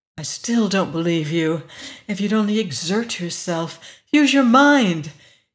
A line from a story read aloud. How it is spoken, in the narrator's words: said savagely